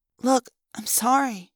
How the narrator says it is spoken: I mumbled

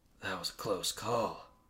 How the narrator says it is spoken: he whispered

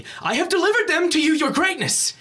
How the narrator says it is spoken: Lander screams continuously

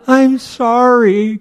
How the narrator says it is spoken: cried Norval

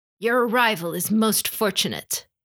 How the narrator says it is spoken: Hitomi spoke in a low growl

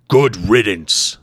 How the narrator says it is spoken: warrior snarled

